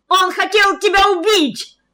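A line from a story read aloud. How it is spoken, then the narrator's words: Yelling. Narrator (Russian): орал Сергей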